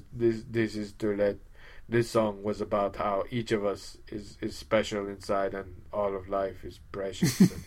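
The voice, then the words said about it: Imitates another person's voice, Greek accent. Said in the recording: “with the little Greek accent”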